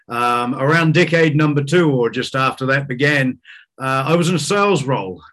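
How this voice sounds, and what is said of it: New Zealand accent. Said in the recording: “as you can tell from your accent, I'm not from around here. I started my life, down in New Zealand”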